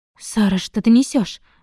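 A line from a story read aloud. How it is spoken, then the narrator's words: Exclaimed. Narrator (Russian): воскликнула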